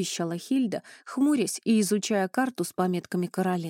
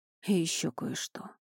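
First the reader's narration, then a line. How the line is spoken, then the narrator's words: Sigh. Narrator (Russian): вздохнул Элай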